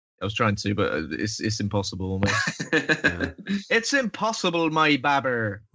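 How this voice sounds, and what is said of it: Bristolian accent. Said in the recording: “It sounds great in the Bristolian accent as well. ... I like your accent. It's lovely.”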